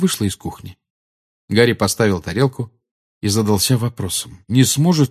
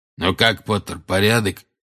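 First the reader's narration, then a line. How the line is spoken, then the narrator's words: Hoarse rasp. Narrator (Russian): прохрипел Грюм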